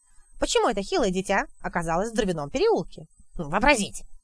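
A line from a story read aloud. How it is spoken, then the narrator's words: Scornful snort. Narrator (Russian): Гури фыркнул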